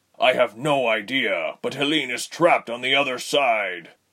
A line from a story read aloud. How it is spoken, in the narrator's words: Jonan said through gritted teeth